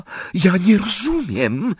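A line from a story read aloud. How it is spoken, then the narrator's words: Whispered. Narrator (Polish): wyszeptała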